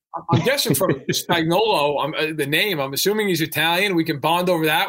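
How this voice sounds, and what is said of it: Northeastern American accent. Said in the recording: “You both have that Northeastern accent”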